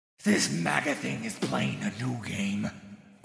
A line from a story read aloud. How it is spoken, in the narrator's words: growled Wolf